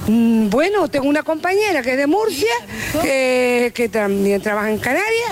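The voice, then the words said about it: Canary Islands Spanish accent. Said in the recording (Spanish): “Ese acento canario que tanto nos gusta.”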